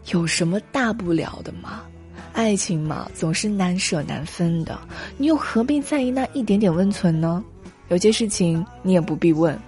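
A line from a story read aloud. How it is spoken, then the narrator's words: Breezy, worldly-wise. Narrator (Chinese): 像一个洒脱的大哥大姐向你走来……以过来人的姿态说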